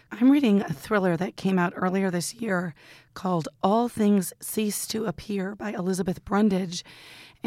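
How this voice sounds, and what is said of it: Raspy, hoarse voice. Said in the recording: “I'm going to rasp this one out. Pardon my voice.”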